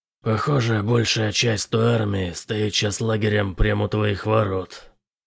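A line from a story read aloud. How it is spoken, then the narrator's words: Hoarse rasp. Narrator (Russian): прохрипел Бэтрим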